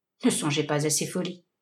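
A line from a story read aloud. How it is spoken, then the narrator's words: Troubled murmur. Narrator (French): murmura le milliardaire, troublé malgré lui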